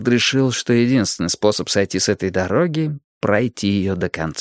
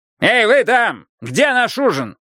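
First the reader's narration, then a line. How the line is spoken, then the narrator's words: Yelling. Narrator (Russian): он снова заорал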